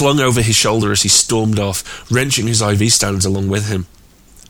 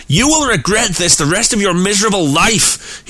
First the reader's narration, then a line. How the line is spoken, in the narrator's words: he shouted into Abby's face